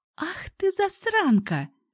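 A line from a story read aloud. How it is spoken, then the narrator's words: Laughing. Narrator (Russian): засмеялась Алсу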